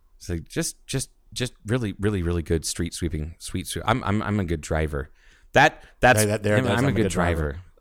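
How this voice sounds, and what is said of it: Rain Man impression. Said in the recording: “you do much better Rayman than I do ... that impersonation”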